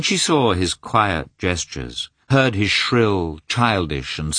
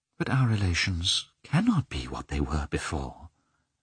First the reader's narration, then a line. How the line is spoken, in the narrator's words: Anna began in a timid voice